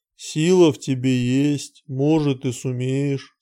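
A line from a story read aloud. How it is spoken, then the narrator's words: Calm reply. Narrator (Russian): спокойно ответил Кранг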